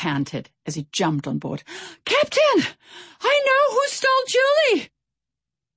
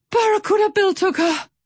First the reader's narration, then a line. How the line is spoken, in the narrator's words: Pip wheezed